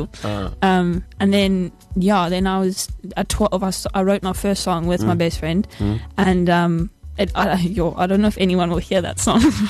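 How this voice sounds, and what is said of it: KwaZulu-Natal South African accent. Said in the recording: “that's my KZN accent coming out”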